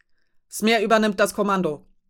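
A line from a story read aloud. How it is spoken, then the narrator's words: Bellowing across deck. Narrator (German): brüllte Syndra ohne zu zögern über das Deck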